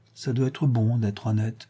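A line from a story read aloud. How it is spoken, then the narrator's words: Said with sigh. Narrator (French): dit Fleur de Marie avec un soupir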